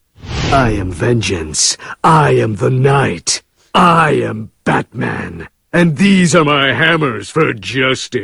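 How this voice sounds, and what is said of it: Batman character voice. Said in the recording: “doing a Batman impression ... Observe the master.”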